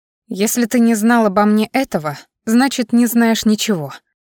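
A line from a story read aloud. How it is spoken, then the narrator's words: Growling. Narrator (Russian): продолжила рычать я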